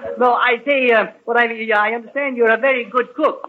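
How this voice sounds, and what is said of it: Comic put-on Swedish accent. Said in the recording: “You're always clowning, you and your Swedish accent.”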